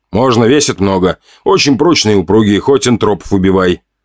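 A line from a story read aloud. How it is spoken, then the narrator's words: Laughing. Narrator (Russian): смеялась продавщица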